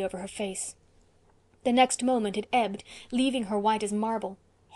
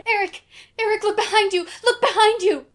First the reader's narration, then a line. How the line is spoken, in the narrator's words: a voice came shrieking across the orchard